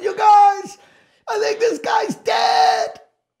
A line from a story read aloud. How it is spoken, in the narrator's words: I yelled to everybody